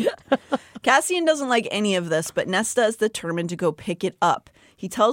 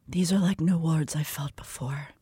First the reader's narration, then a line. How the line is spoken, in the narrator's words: she whispered